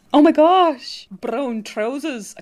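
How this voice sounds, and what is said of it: Poor attempt at Welsh accent. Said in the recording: “Ian's accent... I can't do it... I still can't do a Welsh accent”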